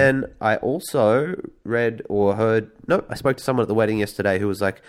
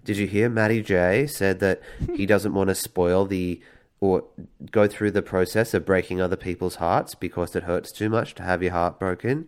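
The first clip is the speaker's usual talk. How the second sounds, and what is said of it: Scary impression of a man. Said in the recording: “it's probably not a fair impression of the person that I'm doing ... I was going to do an impression during this show and that it was going to be scary ... Yeah, it was scary ... It was a nightmarish visage”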